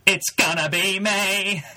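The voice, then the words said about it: NSYNC boy band singing impression. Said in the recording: “Was that in sync impression? ... You got a boy band voice. That was good.”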